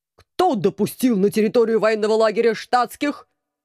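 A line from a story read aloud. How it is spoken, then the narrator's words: Obedient howl, commandant. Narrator (Russian): послушно взвыл комендант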